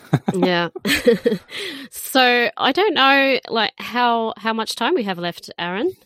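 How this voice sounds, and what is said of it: Usual voice. Nothing is said of it.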